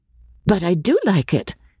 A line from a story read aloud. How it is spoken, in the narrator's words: said Kim in her clear, decisive voice